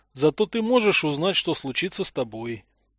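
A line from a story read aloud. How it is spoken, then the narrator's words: Sad. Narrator (Russian): печально произнес Гренц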